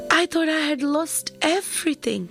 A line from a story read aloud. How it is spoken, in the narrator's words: he exclaimed